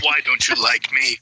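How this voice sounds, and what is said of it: Impersonation of a film villain's voice. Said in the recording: “doing an impersonation of our main antagonist in this movie”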